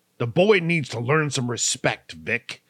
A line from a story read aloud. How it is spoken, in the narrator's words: snapped back coldly